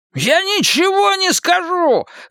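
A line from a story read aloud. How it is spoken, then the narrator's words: Yelling. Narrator (Russian): завопил Харви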